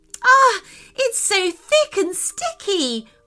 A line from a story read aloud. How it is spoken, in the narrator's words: cried, trying to wipe away the ink